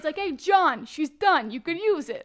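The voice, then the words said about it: Put-on Italian accent. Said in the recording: “give him an Italian accent”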